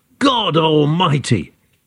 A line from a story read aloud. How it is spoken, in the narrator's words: Josie jumped up and yelled